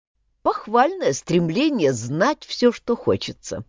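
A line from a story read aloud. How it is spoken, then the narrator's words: Plain. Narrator (Russian): сказал Мэтью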